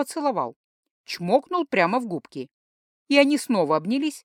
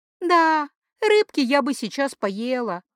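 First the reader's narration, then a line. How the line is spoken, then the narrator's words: Dreamy sigh. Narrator (Russian): мечтательно вздохнула Лерина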